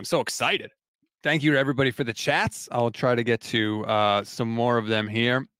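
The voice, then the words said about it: Hoarse voice. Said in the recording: “my voice is getting hoarse”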